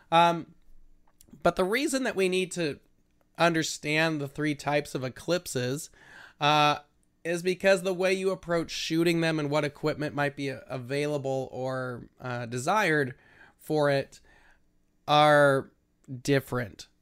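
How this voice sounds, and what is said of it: Voice sounds a little off. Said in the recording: “I had some allergies this week, so my voice is a little weird.”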